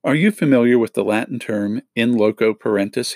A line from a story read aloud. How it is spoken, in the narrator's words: he asked